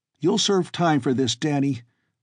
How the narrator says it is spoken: Bart shouted

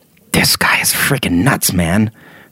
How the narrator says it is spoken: Arlen whispered

